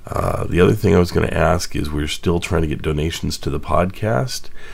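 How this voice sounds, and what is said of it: Strained, unwell-sounding voice. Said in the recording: “my voice is not the best today. It's I thought it was getting better, but it's getting worse again”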